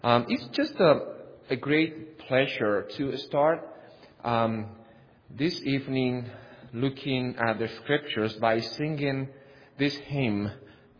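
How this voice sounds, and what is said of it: Spanish accent in English. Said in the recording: “I am from Spain, because you will not tell by my accent that I am from another country”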